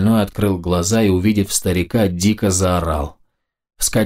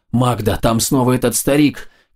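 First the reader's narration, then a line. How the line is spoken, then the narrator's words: Shouting. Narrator (Russian): кричал он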